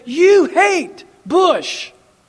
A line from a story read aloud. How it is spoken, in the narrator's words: Republicans and Christians yelled at me and said